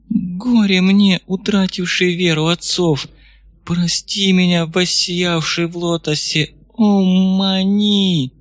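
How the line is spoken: Sobbing. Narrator (Russian): всхлипнула

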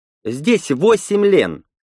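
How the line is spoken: Sharp. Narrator (Russian): резко ответила она

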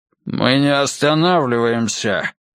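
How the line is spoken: Barked. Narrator (Russian): рявкнул Ройс

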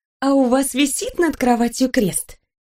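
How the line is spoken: Flirtatious question. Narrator (Russian): Флиртующим тоном спросила я

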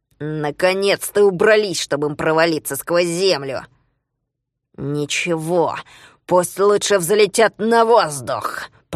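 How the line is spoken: Grumbling. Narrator (Russian): проворчала другая голова голосом Спруца

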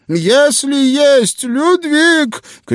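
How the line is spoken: Shouted from behind. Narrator (Russian): крикнул он мне в спину

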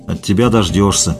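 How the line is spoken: Grumbled. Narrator (Russian): буркнул Стерляжий

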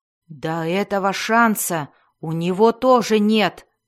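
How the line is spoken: Roared. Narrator (Russian): взревел Белвар

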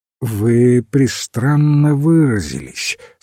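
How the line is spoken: Sleepy. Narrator (Russian): сказал он, сонно

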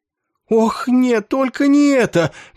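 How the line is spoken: Loud groan. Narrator (Russian): громко простонал генерал Долбинг

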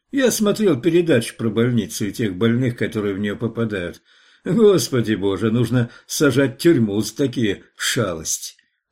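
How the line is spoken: Giggling. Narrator (Russian): Он хихикнул

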